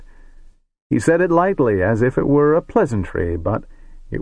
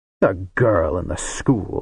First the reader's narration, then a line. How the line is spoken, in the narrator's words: said Tosla, with a scoffing grin